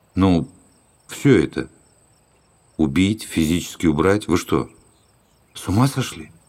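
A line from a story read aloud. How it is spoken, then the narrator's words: Slow, clipped. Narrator (Russian): Дон Кондор медленно отчеканил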